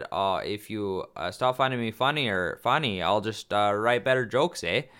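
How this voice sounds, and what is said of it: Put-on Canadian accent. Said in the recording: “your Canadian accent, ... eh?”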